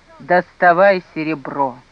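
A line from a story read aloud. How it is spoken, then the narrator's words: Muffled reply. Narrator (Russian): Кирилл только глухо отмолвил жене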